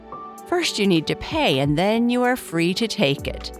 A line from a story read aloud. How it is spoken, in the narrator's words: the local elder said, laughing